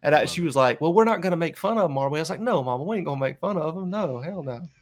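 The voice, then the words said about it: Regional accent comes through. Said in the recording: “I love your accent coming out just because we're talking about your mama.”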